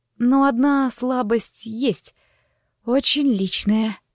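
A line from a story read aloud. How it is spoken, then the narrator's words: Hoarse rasp. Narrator (Russian): прохрипела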